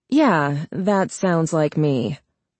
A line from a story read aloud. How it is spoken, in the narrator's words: Charlie said dryly